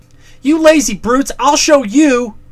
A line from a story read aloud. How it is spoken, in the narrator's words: cried